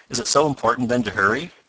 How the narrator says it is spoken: asked Mr

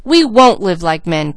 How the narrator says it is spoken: cried both boys

